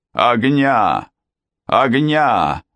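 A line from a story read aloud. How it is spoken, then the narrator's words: Shouted. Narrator (Russian): закричал он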